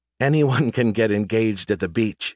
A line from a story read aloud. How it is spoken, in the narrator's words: she laughed